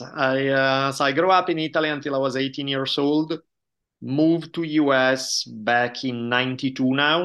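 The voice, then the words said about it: Italian accent. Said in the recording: “I grew up in Italy, as probably my accent gives away ... my accent never goes away”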